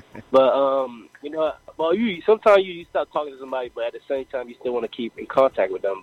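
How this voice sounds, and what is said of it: Light Caribbean island accent. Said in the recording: “I hear a bit of an island accent in your voice ... I'm Haitian.”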